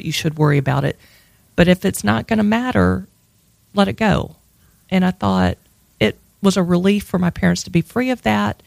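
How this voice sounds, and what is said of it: Strong regional accent, sounds put on. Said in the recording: “I love your fake accent... People think that I'm putting something on... Does it get thicker when you're drunk?”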